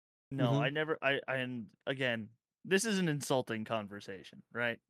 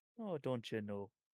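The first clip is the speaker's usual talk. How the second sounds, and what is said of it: Put-on Irish-sounding accent. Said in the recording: “That is not what Minnesota. That is a very Irish. What you just did.”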